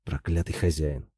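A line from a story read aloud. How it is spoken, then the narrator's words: Muttered. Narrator (Russian): пробормотал он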